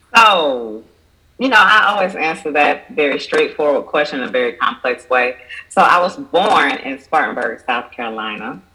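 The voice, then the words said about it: Southern drawl. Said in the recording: “you may hear the Southern drawl. ... I do.”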